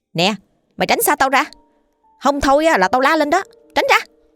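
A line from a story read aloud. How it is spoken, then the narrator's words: Forced fierce shout. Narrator (Vietnamese): Chị bặm môi, cố tỏ ra hung dữ để làm cho hắn ta sợ, tiếp tục quát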